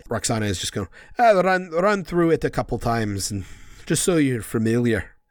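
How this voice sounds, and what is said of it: Put-on Scottish accent. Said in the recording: “That's Scottish. I can't stick with an accent”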